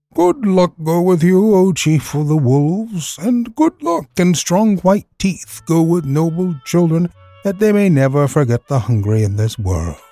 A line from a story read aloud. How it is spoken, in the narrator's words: a little shadow with a bushy tail whined